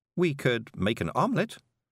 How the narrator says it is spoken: said Miss Level cheerfully

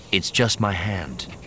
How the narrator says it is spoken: replied calmly

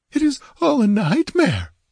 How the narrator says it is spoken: whimpered Natala

